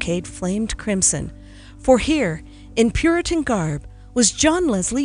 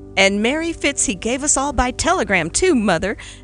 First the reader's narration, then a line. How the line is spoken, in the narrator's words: exclaimed Philip with a grin